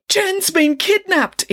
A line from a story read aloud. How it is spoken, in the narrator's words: exclaimed the boy